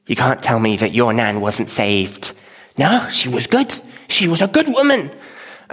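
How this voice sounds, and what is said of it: Put-on Scouse accent. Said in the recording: “it's all in a Scouse accent”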